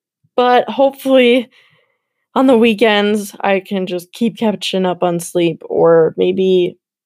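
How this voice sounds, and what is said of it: Slightly raspy tired voice. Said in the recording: “my voice is a little bit raspy,”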